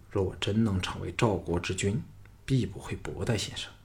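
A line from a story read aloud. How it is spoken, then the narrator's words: Low, close to ear. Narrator (Chinese): 凑到他耳旁，低声说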